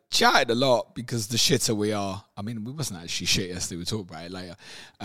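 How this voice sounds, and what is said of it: Hoarse voice. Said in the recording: “I'm a little bit hoarse this morning. ... Went down Tottenham yesterday, shouted at them.”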